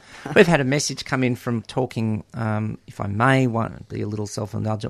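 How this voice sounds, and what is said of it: Slightly hoarse voice. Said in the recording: “that's why I've got a slightly hoarse voice”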